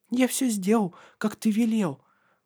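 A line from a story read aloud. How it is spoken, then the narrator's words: Breathless whisper. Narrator (Russian): прошептал Матиас, запыхавшись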